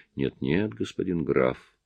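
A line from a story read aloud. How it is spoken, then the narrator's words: Quiet but unyielding. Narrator (Russian): тихо, но непреклонно промолвил управляющий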